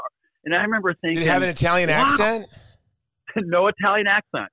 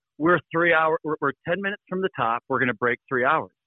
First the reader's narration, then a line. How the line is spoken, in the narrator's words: someone in a perfectly clear voice said